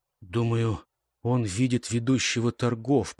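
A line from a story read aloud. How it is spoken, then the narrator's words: Whispered. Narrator (Russian): прошептал Гейб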